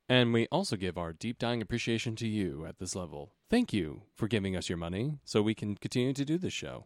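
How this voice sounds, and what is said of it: Public-radio announcer voice. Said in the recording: “Your fucking NPR voice is killing me ... you're in character”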